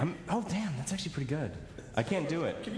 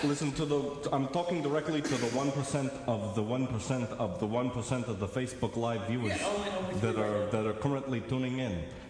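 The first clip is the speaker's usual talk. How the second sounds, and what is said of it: Imitates another person's voice. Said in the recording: “I'm actually a wonderful Bernie Sanders impersonator.”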